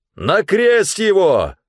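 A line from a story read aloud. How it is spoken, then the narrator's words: Crowd shouting louder. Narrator (Russian): еще громче закричали они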